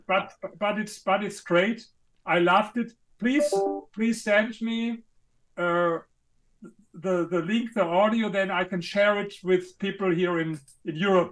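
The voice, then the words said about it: Foreign-accented English. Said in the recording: “You got a cool accent.”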